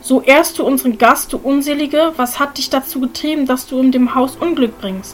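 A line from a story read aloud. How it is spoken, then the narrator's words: Shouted in horror. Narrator (German): rief entsetzt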